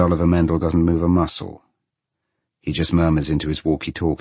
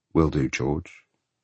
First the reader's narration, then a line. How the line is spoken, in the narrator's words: Oliver murmurs